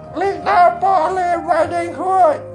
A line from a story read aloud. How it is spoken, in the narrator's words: said in a squeaky voice